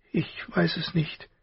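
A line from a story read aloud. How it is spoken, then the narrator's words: Broken voice. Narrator (German): sagte sie schließlich mit gebrochener Stimme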